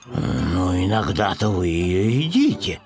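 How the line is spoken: Muttered. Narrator (Russian): пробормотал Пэтсон

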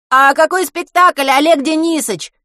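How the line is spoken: Shouted from crowd. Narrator (Russian): выкрикнули из толпы

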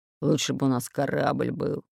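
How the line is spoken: Displeased growl. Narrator (Russian): недовольно прорычал Буль-Буль

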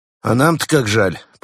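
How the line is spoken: Grumbling. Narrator (Russian): проворчал Константин

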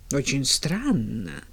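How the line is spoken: Puzzled mutter. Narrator (Russian): пробормотала миссис Кэррио, все еще не до конца понимая, в чем тут дело

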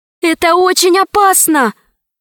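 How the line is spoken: Exclaiming. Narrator (Russian): воскликнула Алиса

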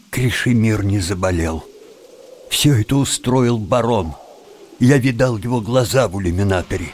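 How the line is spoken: Glum, forced calm. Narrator (Russian): уныло ответил Тим и, стараясь говорить спокойным голосом, добавил

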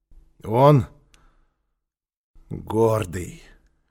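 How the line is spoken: Hoarse repetition. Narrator (Russian): хрипло повторил Квакин

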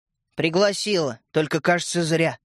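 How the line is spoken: Gloomy. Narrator (Russian): мрачно сказала Ариша

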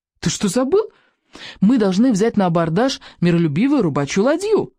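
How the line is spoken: Snapped. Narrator (Russian): огрызнулся

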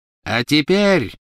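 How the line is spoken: Triumphant ringing proclamation. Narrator (Russian): победно звенящим голосом провозгласила она

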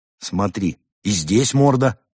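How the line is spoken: Exclaiming. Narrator (Russian): воскликнул Константин

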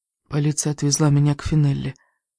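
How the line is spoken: Trembling voice. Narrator (Russian): дрожащим голосом сказала

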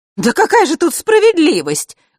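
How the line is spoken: Angry woman's exclamation. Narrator (Russian): гневно воскликнула черноволосая женщина

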